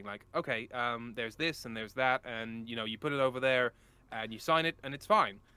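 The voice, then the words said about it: Gentle put-on American accent. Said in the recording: “Can you do an American accent? ... I mean, badly. ... If you do it gently, it's more convincing ... that's sort of like a reasonable American”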